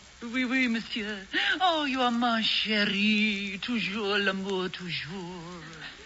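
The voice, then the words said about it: Put-on French accent. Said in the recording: “I'm supposed to put on a French accent and pretend I'm Josephine”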